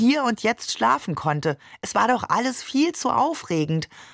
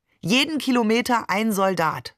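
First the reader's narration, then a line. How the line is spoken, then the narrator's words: Plain. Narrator (German): sagte Barbe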